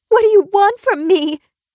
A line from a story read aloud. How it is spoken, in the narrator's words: screamed